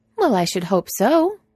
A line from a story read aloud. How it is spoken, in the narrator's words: Franny says brightly